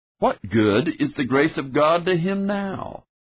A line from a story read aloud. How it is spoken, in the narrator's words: In a tone of mocking, the judge said